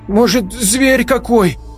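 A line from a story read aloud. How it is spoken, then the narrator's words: Frightened guess. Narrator (Russian): испуганно предположила Лиза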